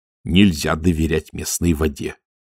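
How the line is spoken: Stern. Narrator (Russian): строго сказал сержант Колон

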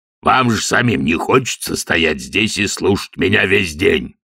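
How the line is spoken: Roar. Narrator (Russian): проревел он

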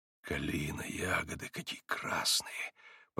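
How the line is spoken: Puzzled whisper. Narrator (Russian): прошептал, не зная зачем

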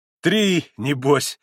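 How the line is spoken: Laughing. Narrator (Russian): засмеялся Митя

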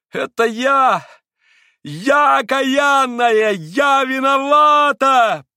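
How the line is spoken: Heart-rending tearful scream. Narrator (Russian): прокричала она раздирающим душу воплем, вся в слезах

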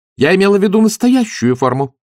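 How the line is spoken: Sharp woman's voice. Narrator (Russian): резко сказала женщина

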